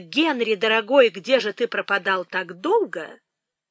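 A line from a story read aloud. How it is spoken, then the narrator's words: Exclaiming. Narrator (Russian): она воскликнула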